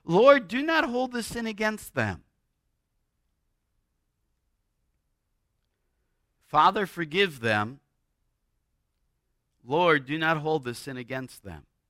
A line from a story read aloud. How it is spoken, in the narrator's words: Stephen, as he's being stoned to death, he cries out